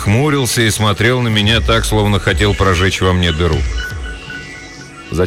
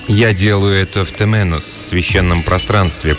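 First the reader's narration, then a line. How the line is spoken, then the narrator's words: Mumble. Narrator (Russian): промямлил я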